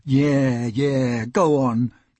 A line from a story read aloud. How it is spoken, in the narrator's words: much groaning and cries of